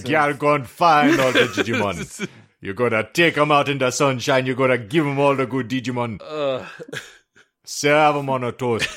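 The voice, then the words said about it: Put-on Jamaican accent. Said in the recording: “I want to hear it in a Jamaican accent”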